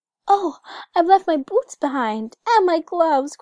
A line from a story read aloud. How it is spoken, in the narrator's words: cried little Gerda